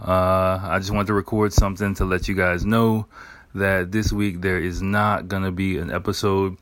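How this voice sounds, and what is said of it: Slightly hoarse voice. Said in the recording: “my voice is a little bit hoarse ... a bit of a sore throat, like a cough”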